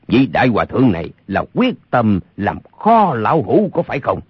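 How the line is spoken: Cold. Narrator (Vietnamese): Âu Dương Phong lạnh lùng nói

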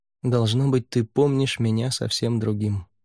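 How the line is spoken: Said quietly. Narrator (Russian): тихо сказал Рай

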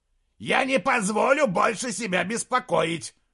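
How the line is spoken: Shouting. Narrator (Russian): крикнул Моргенес

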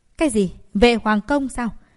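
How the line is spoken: Surprised exclamation. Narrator (Vietnamese): Người đệ tử kia lập tức ngạc nhiên bật thốt

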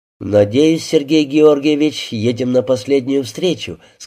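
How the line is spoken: Plain. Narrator (Russian): сказал инспектор

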